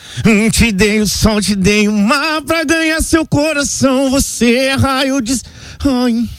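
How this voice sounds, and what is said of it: Sings imitating a pop singer. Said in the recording (Portuguese): “imitando o Luan Santana”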